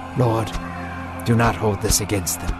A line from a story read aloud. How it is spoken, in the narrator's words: Stefan whispered